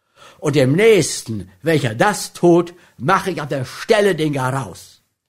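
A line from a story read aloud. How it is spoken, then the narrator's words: Thundering, angry. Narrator (German): donnerte er William an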